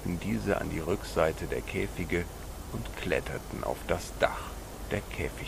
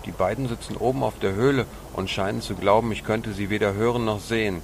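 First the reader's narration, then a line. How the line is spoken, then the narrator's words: Calling out to brothers. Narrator (German): rief Paco seinen Brüdern zu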